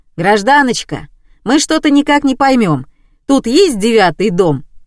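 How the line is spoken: Shouted. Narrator (Russian): Василий крикнул

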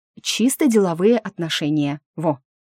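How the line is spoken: Contemptuous snort. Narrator (Russian): Госпожа Турус презрительно фыркнула

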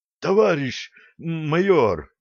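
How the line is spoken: Hoarse voice. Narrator (Russian): сиплым голосом снова начал

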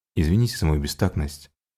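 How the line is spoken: Soft, taken aback. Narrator (Russian): мягко сказал Уильям, пораженный этим взрывом эмоций

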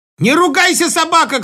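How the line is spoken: Shout. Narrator (Russian): крикнула она

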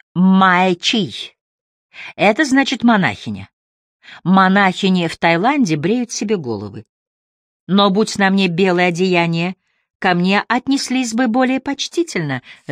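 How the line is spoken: Laughing. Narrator (Russian): засмеялась она

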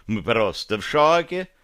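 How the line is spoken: Cheerful clinking. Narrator (Russian): весело дзинькнул

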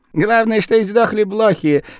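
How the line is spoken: Laughing man. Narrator (Russian): смеялся японец

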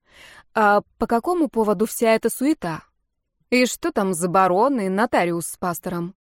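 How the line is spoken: Thoughtful question, chewing apple. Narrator (Russian): задумчиво кусая яблоко, я спросила Ульрика

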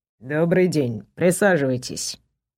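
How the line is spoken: Dry. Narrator (Russian): сухо произнес он

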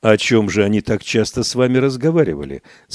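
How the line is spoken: Plain question. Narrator (Russian): спросил комиссар

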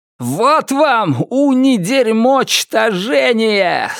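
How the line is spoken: Yelling. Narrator (Russian): завопил он

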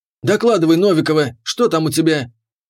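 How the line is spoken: Barked. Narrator (Russian): рявкнул капитан

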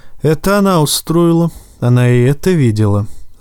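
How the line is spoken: Sighing. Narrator (Russian): Станис вздохнул

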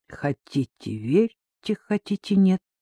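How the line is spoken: Quiet strained utterance. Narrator (Russian): тихо выдавил из себя капитан

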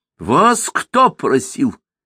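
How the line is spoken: Nervous cry. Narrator (Russian): нервно вскрикнул Сумароков

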